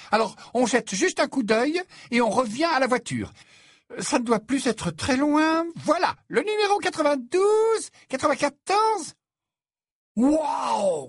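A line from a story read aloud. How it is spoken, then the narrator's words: Exclaimed. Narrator (French): s'exclama Ron en se figeant sur place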